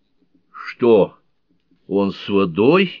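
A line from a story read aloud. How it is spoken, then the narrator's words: Frightened exclamation. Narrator (Russian): испуганно воскликнул Роузен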